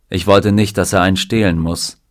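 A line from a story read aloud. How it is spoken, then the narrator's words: Plain. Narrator (German): sagte Vernon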